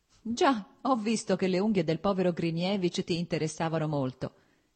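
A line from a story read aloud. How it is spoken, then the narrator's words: Laughing. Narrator (Italian): disse ridendo Stepan Arkadic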